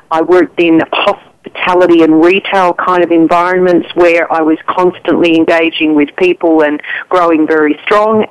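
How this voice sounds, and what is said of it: Australian accent. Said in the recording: “I'm hearing an accent. Are you from Australia?”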